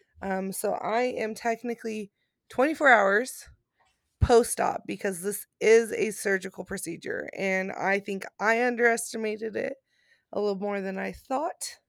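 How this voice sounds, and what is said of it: Tired-sounding voice. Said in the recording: “sorry if I sound a little tired ... I am tired and I hurt right now”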